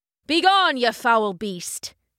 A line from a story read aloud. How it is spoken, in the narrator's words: bellowed